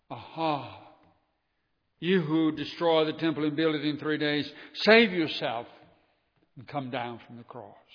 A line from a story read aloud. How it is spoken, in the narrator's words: they rubbed salt in the wounds of Jesus as they cried